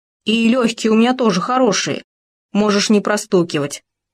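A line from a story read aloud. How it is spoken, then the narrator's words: Embarrassed grumble. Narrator (Russian): смущенно пробурчал Хома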